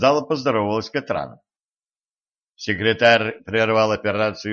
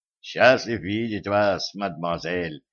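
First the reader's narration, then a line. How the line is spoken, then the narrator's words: Mumbled. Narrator (Russian): пробормотал он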